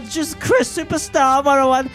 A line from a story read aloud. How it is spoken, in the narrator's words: screamed Marilyn on the stage